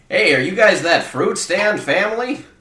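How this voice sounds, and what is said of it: Strange unidentifiable put-on accent. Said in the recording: “I don't know what that accent is... What happened to your voice?”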